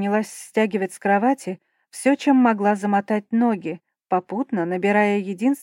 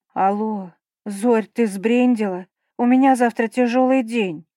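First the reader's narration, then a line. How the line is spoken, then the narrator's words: Hoarse over phone. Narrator (Russian): Моя верная подруга захрипела в трубку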